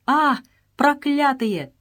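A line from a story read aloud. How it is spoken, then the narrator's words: Furious desperate exclamation. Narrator (Russian): воскликнул Джон Малькольм с яростью храброго человека, который понимает, что сейчас его убьют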